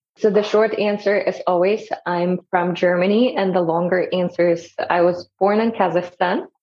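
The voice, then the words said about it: Noticeable foreign accent. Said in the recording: “I can't ignore your accent.”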